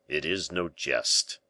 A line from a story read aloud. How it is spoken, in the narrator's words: replied in a deep voice the masked figure